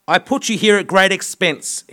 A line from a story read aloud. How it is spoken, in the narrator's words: shouted